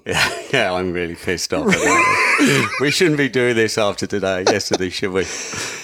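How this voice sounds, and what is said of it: British accent. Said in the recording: “you can tell by his accent that they lost”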